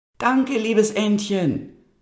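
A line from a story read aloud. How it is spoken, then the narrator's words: Calling out. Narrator (German): rief Gretel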